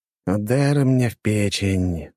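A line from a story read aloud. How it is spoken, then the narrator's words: Inward sigh. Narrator (Russian): вздохнул про себя герцог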